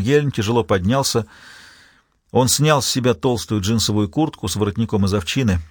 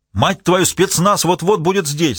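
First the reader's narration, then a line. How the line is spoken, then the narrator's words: Yelled. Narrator (Russian): заорал Эрнсон вслед Ельму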